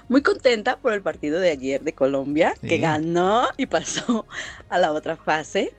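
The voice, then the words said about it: Mexican Guadalajara (tapatío) accent. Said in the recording (Spanish): “ese acento bien, bien tapatío ... Bien tapatío”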